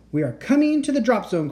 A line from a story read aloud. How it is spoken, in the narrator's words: cried Teddy